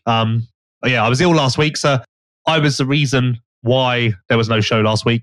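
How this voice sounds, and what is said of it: Hoarse, mostly lost voice. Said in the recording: “my voice has probably been very annoying to listen to, more so than normal this week... I don't have a voice anymore”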